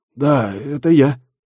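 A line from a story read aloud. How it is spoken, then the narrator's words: Hoarse reply. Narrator (Russian): хрипло отозвался Денис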